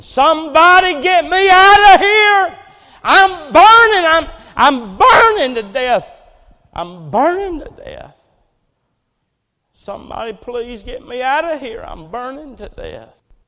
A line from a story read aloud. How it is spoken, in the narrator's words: he was screaming